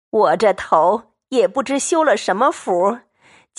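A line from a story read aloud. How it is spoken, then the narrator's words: Laughing. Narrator (Chinese): 刘姥姥笑道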